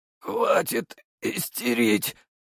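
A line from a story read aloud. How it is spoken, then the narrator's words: Through gritted teeth. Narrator (Russian): процедил через зубы Николай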